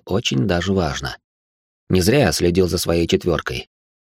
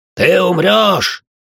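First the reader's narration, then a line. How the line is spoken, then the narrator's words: Warrior shouting. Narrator (Russian): закричал один из обычных воинов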